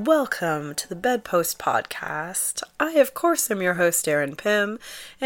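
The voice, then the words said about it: Sick, strained voice. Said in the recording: “as you can probably hear in my voice... you don't want to hear this this um, sick the sickness. You don't want to hear my illness”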